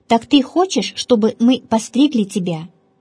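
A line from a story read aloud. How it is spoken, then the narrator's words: Plain. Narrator (Russian): спросили они Пимена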